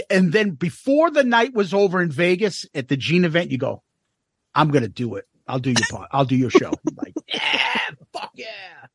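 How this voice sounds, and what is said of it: Boston accent. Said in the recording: “You just love the Boston accent”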